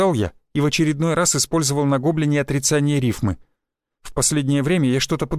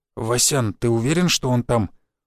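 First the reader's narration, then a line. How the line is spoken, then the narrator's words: Older man whispering. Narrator (Russian): прошептал охотник, которому на вид было далеко за 50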